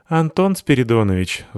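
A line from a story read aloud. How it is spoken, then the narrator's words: Sigh. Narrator (Russian): вздохнула Джиу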